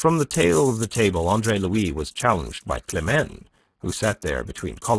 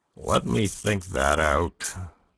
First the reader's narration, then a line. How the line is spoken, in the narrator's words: groaned Polichinelle